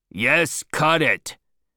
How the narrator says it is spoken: shouted Stubb angrily

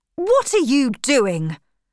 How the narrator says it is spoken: shouted Lieutenant Kotler

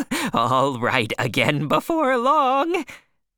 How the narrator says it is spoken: the stranger said, laughing wildly

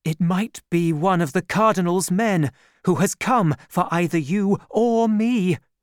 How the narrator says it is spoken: she cried

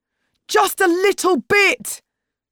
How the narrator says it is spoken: screamed Tariq

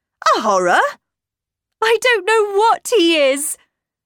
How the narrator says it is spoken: cried

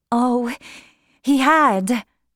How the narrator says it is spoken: she cried

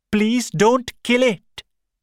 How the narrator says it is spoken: Shakuntala shouted

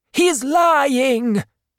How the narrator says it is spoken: Vanessa shouted

